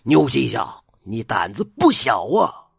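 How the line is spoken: Fierce roar. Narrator (Chinese): 刘黑七见状，恶吼一声道

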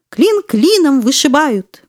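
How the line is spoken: Excited exclamation. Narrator (Russian): воскликнул взбодраженный Веня

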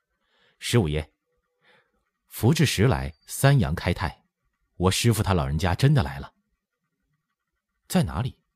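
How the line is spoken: Sudden, laughing. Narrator (Chinese): 任精子忽然回身笑指着驿站门口说

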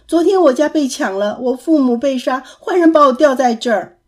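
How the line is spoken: Child crying and shouting. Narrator (Chinese): 孩童 哭着叫着说

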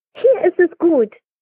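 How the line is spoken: Calling across. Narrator (German): rief es zu seinen Eltern hinüber

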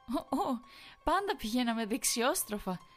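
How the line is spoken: Smiling. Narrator (Greek): χαμογέλασε

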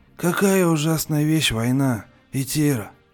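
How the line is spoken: Tired voice. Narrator (Russian): Устало сказал

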